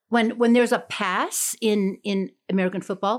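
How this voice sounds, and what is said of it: Usual voice. Nothing is said of it.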